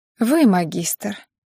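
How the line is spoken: Heavy sigh. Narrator (Russian): тяжело вздохнула Аня

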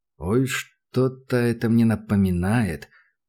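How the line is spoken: Muttered. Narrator (Russian): пробормотал Данил

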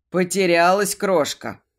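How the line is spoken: Deep bass growl. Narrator (Russian): босовито рыкнул он

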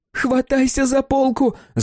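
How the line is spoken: Yelling. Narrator (Russian): заорала она

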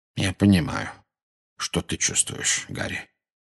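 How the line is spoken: Very quiet. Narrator (Russian): очень тихо произнес Дамблдор

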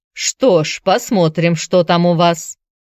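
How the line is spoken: Grumbling man. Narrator (Russian): проворчал он

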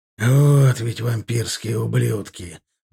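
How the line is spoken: Breathed out. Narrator (Russian): выдохнул Милар

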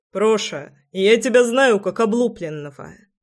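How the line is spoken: Laughing remark. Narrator (Russian): хохотнул Роман

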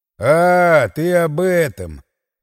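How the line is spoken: Drawl. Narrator (Russian): протянул я

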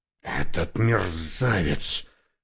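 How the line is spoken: Hissing. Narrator (Russian): прошипел он

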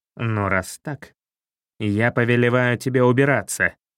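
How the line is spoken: Growling cat king. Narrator (Russian): зарычал король-кот

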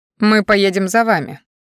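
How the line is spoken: Rudely snapped. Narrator (Russian): грубо отрезал

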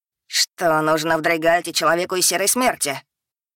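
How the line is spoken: Dragon's growl. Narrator (Russian): рыкнул дракон

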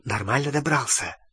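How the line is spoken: Whispered question. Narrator (Russian): шепотом спросила Гермиона

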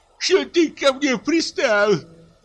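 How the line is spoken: Shrieking, tearful. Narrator (Russian): завизжал лесник, и крупные слезы брызнули из его глаз

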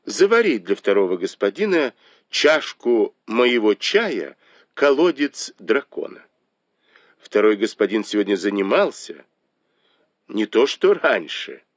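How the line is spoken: Soft laughing command. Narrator (Russian): Дай Юй тихо засмеялась и приказала

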